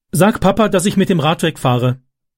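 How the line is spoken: Calling out. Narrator (German): rief er Wendy zu

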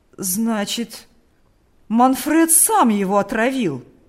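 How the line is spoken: Old man, trembling with excitement. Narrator (Russian): воскликнул старик, дрожа от волнения

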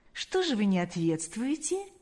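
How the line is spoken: Soft question. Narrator (Russian): мягко спросил Паисий

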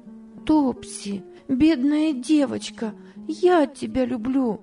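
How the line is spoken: Exclaimed with sudden tenderness. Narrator (Russian): воскликнула Ева с внезапным порывом нежности

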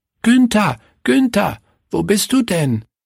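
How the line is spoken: Calling out. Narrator (German): rief Willi

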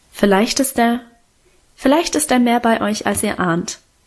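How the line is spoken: Plain. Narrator (German): antwortete sie

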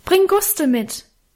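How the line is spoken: Calling out into darkness. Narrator (German): rief in die Dunkelheit nach

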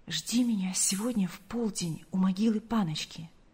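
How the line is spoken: Quick whisper. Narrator (Russian): Павел успел прошептать Гале

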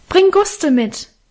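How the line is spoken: Calling after into darkness. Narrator (German): rief ich ihm in die Dunkelheit nach

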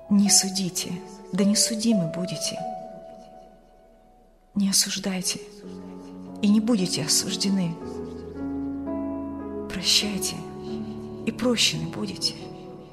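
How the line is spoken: Quiet young man. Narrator (Russian): тихо произнес молодой провизор

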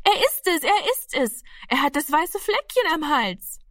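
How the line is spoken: Excited scream. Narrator (German): schrie aufgeregt

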